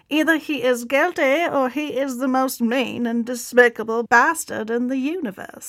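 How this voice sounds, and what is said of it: Put-on transatlantic accent. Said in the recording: “I like your transatlantic accent. ... pretty good? ... That was pretty good.”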